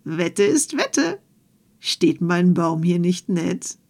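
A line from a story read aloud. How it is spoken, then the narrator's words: Called out. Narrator (German): Puck Krähenfuß … rief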